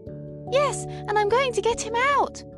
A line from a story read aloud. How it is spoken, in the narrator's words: exclaimed Madeline